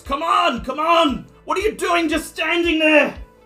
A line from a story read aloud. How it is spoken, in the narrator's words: Sergeant Maddox bellows